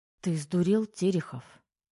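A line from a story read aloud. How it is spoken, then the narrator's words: Quiet female hiss. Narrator (Russian): негромко шикнула на него девушка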